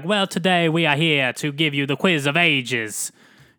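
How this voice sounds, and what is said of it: Put-on accent. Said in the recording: “you can put on, like, a nice accent.”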